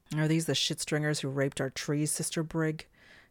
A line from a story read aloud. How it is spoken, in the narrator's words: snapped the newcomer